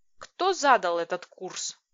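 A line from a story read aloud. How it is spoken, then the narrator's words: Growl. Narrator (Russian): прорычала я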